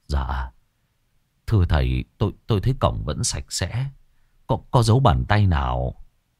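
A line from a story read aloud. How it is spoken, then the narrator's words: Stammering. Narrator (Vietnamese): Ông Hiệp nghe thấy thì lắp bắp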